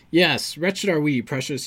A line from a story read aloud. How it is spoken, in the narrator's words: he whined